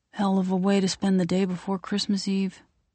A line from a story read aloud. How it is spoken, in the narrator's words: he sighs deeply